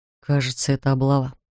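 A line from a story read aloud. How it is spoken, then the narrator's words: Barely audible whisper. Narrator (Russian): шепчет Вальтер едва слышно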